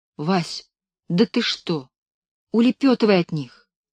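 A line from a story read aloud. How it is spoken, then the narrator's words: Frightened whisper. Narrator (Russian): Белка испуганно шептала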